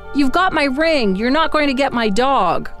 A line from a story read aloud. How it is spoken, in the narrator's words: John yelled